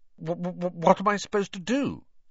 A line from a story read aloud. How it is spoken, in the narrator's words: he stammered